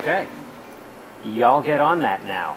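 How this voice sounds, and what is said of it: Bad put-on country accent. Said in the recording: “my country accent ... new and improved country accent ... That is the worst ever.”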